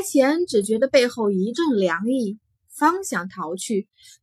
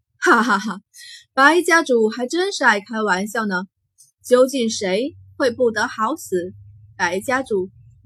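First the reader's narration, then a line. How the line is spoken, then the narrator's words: Loud laughter. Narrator (Chinese): 惊鸿退后两步，大笑出声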